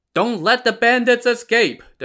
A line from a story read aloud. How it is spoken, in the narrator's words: the 2 constables shouted